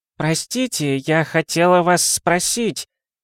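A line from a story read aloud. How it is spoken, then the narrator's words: Elderly woman exclaiming. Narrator (Russian): воскликнула одна из пожилых дам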